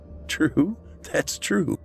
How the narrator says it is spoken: Matt said with a laugh

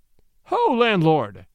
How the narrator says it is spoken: cried the peddler

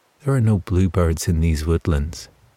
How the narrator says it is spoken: said David

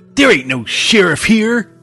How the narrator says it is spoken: one of the Sheridans said angrily

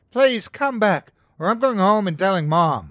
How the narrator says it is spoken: I yelled at him

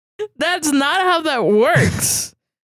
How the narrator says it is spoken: Josh yelled

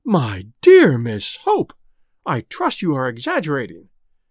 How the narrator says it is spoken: exclaimed the Quarbaris in unison

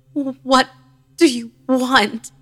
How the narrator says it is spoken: She moaned and croaked

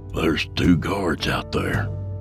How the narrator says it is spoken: Yancey whispered

